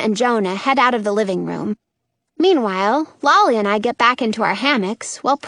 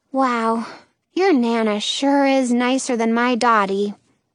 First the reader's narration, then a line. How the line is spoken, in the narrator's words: says wistfully